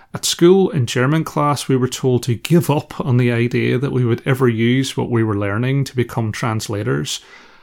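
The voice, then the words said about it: Northern Irish accent. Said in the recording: “my Northern Irish accent ... my accent ... Our regional dialect was so incomprehensible”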